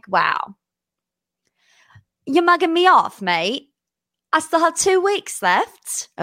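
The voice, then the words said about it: Put-on British accent. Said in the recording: “that is my British accent for the day”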